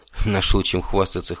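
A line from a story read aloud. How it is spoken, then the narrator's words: Amused snort. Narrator (Russian): хмыкнул я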